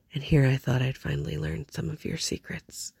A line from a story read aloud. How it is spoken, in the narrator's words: he murmured flippantly